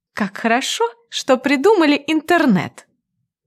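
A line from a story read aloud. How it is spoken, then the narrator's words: Slightly sarcastic reply. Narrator (Russian): отвечаю чуть ехидно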